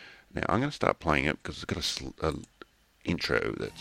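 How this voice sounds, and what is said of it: Usual voice. Nothing is said of it.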